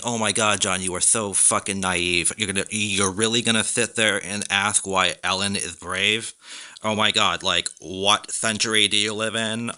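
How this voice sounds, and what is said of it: Mocking imitation of an exasperated critic. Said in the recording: “I do a really good impression of that voice”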